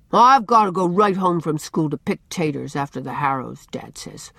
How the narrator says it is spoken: answered Dan sulkily

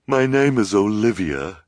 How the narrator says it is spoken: she said finally, with a shuddering sigh

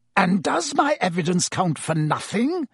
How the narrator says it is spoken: snarled Snape

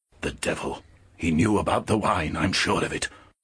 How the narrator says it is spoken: Lyra heard him murmur

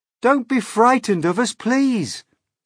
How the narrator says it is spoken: James called out

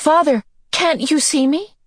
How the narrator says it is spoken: she cried

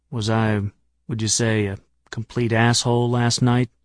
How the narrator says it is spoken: said in a quiet voice

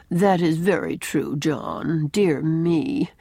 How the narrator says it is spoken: she at once remarks in that drab, lifeless little voice of hers

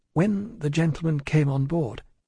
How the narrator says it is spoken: In the midst of a profound stillness faintly began

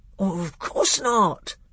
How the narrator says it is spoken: said the bear in a very shocked voice

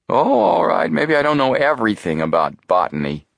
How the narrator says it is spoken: Chet grumbled

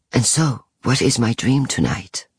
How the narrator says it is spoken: he would whisper

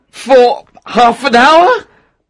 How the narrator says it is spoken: said Octavian anxiously

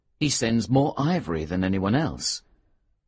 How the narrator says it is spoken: the manager replied

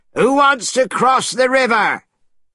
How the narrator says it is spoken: shouting

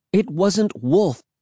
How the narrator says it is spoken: I cried

